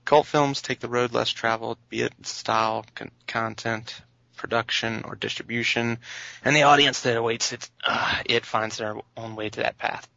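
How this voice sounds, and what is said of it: Australian accent. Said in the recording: “my Australian accent”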